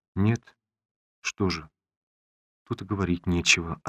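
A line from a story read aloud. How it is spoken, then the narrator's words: Hollow lifeless voice. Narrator (Russian): отозвалась Олеся как будто бы спокойно, но таким глухим, безжизненным голосом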